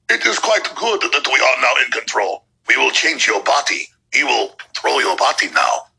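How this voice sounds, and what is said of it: Weak German Bond-villain accent. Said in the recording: “that's not a very good German accent ... it's a Bond villain voice”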